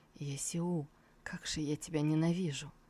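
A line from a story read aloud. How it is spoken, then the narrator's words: Weak, exhausted whisper. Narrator (Russian): Его силы, наверное, на исходе шептал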